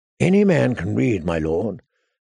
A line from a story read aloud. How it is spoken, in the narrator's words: said Maester Pylos